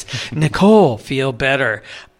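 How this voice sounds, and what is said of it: Soft whispery ASMR voice. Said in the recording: “in my best ASMR voice.”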